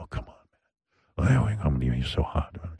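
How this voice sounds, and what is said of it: Put-on sexy voice. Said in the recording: “I have my sexy voice. ... This is creepy.”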